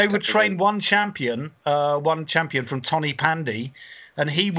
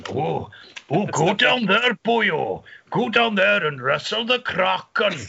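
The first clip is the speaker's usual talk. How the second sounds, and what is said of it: Attempted Welsh accent, sounding Scottish. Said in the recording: “I'm not going to try a Welsh accent. ... that's, that's Scottish.”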